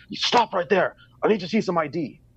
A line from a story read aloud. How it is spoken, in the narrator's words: one of them yells at me